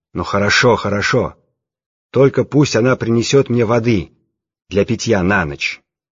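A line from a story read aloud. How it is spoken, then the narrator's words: Loud. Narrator (Russian): сказал громко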